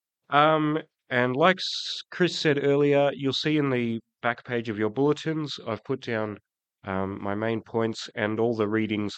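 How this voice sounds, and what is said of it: Croaky, hoarse voice. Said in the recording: “apologize for my voice. I'm coming off the back of a cold, so if I sound a bit croaky”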